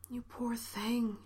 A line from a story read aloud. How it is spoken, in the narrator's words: she breathed